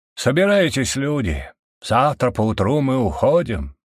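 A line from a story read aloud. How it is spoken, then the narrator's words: Booming, suddenly mature voice. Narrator (Russian): Зычным голосом, словно миг повзрослевший, говорил глава рода Даррен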